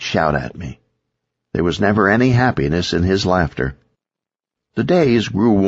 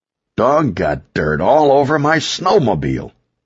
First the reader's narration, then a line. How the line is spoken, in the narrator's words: Victor yelled